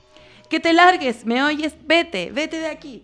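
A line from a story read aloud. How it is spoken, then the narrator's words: Shouted again. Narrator (Spanish): el hombre volvió a gritarle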